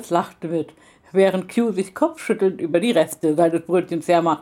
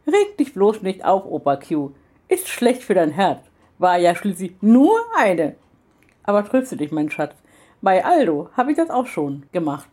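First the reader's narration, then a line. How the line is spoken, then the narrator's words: Exuberant laughing remark. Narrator (German): Jenny lachte nur übermütig und meinte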